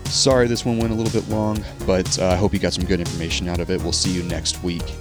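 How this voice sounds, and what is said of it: Strained, worn-out voice. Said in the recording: “my throat is done. My voice is about to go away.”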